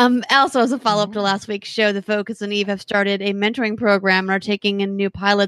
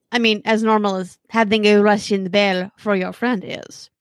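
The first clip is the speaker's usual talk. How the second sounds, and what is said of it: Poorly done put-on accent. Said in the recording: “sorry for the bad accent, guys, I had to.”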